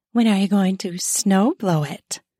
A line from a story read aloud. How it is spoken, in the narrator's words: asked in a saucy tone